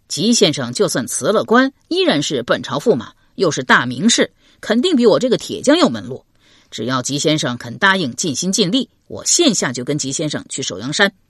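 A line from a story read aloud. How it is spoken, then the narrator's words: Laughing. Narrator (Chinese): 张小泉笑道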